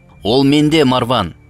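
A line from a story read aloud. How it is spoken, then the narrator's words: Shouting. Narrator (Kazakh): деп айқайлады ол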